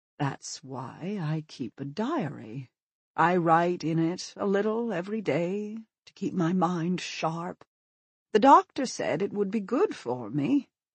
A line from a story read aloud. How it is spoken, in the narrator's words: Margaret says slowly